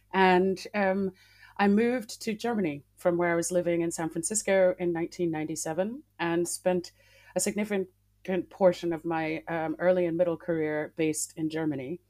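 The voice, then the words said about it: American Massachusetts accent. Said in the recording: “I'm originally from Massachusetts in the United States, as you can tell from my twang.”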